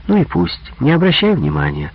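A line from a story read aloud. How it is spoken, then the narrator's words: Gentle. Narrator (Russian): ласково сказала она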